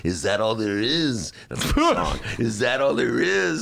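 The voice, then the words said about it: Imitates another person's voice. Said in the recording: “my Marlene Dietrich imitation”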